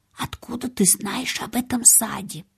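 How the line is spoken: Barely audible question. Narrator (Russian): девочка едва слышно спросила

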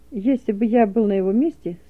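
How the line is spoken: Calm explaining. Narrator (Russian): спокойно объяснил Рябушин

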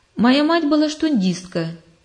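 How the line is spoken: Plain. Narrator (Russian): сказал он

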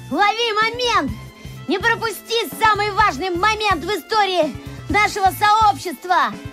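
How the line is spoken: Shouting. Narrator (Russian): Семен на ходу кричал

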